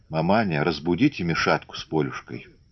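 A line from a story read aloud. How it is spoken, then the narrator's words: Quiet request. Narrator (Russian): Наталья тихо попросила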